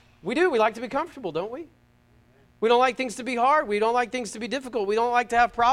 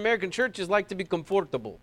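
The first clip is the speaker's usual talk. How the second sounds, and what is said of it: Put-on Belarusian accent. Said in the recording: “my best Belarusian accent”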